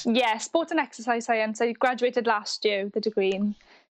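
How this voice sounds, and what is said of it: Strong Welsh accent. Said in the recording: “you have the strongest Welsh accent. Is that a proper Welsh accent? ... Yeah, I think it is a proper Welsh accent”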